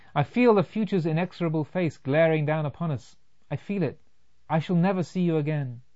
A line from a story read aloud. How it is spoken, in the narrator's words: cried